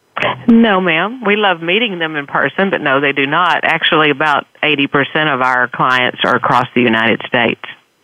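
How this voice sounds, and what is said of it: Texan accent. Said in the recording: “I got a Texan accent here”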